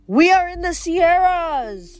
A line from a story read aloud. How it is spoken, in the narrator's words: Zoe yelled